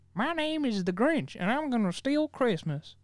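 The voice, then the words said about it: Imitates another person's voice. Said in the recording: “my Newt Gingrinch impression”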